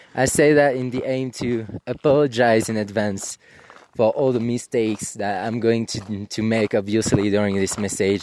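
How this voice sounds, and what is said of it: French accent in English. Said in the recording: “I was trying to place the accent. ... I would have never guessed he was French.”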